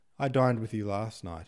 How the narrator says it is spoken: laughed

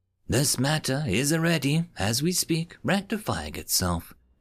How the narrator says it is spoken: said sweetly, her voice like droplets on a pond

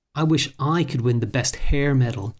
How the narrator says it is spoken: she said

